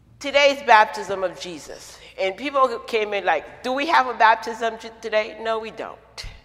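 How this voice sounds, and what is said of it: Haitian French Brooklyn New York accent. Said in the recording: “accent that you're hearing, it's a Haitian, French, Brooklyn, New York accent.”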